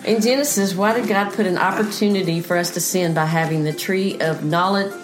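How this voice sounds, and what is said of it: Southern American accent. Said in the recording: “That's our southern accent coming in there, folk.”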